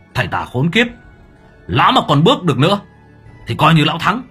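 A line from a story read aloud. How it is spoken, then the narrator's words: Strained loud shout. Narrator (Vietnamese): Minh Hải sau khi hồn vừa hoàn xác thì khó nhọc ôm ngực đứng lên hét lớn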